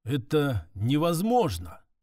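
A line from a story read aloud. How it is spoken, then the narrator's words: Dull mutter. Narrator (Russian): глухо пробормотал Эрдор, капитан одного из поисковых отрядов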